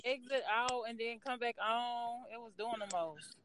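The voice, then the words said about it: Midwest American twang. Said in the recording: “I can hear that Midwest twang in your voice, girl.”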